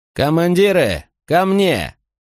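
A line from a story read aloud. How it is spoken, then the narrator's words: Loud command. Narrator (Russian): громко распорядился Максимий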